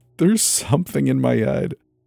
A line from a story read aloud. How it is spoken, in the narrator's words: sobbed, burying my face into the cool silk of my pajama shorts